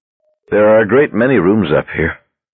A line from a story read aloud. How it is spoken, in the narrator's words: he said, panting slightly